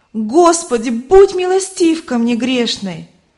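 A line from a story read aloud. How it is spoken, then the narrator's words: Loud exclamation in sleep. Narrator (Russian): Она громко воскликнула во сне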